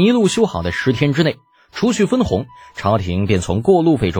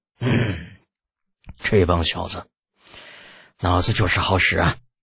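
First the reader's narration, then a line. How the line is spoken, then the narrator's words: Sighing. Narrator (Chinese): 叹了口气道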